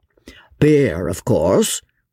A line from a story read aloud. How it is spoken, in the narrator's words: rumbled Jemima